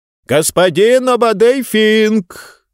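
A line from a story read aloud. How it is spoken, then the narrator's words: Shouting through opening. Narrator (Russian): в отверстие, пробитое во время атаки смога, кричал один из его помощников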